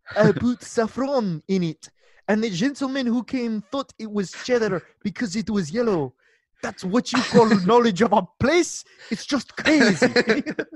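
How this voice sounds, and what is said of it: Put-on French accent. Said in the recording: “I'm going to do it in a French accent.”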